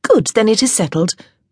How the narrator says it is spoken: Honor said cheerfully

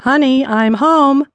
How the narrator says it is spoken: the plump gentleman exclaimed

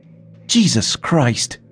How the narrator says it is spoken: exclaimed angrily

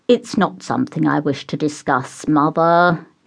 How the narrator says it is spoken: he said through gritted teeth

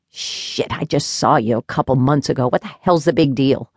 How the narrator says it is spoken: Pete's grandmother, Gertie, grumbled

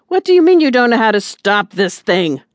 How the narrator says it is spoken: Silas barked back

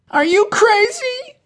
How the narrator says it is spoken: cried Becca

